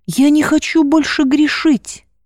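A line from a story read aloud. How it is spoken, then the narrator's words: Tearful speech. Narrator (Russian): сквозь слезы произнесла Маргарита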